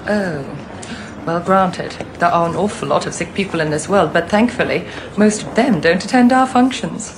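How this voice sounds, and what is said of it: Posh uppity British accent. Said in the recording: “I hate this girl's accent ... Uppity British accent”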